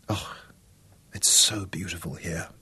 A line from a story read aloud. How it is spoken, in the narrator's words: Isabella whispered